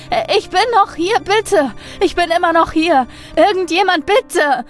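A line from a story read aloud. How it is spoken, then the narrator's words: Repeated screaming, whimpering. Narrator (German): schrie er wieder und wieder und wimmerte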